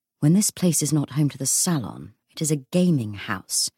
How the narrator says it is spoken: Matthew whispered to Cordelia

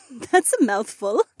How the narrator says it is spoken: Becca laughed

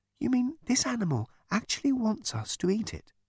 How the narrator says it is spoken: whispered Trillian to Ford

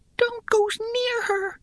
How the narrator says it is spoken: whispered Shim frantically

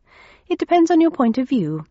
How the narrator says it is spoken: I said cheerfully

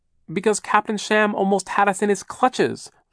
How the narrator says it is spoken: Violet cried

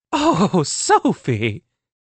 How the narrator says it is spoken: Sage laughed

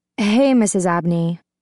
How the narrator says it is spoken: Liz adds, her tone thick with exhaustion

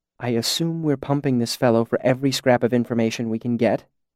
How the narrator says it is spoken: she said quietly over my shoulder

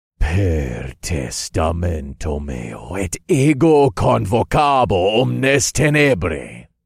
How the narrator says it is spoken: I said, and my voice was a deafening echo that made the walls shake

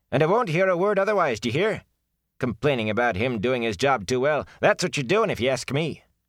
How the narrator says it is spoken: was saying sharply

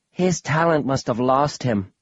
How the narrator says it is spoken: Australia said, sighing

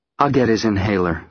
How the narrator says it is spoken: says Claire

